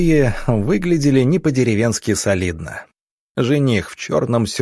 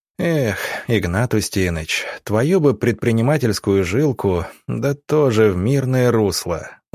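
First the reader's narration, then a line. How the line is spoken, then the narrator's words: Sighing. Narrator (Russian): вздохнул доктор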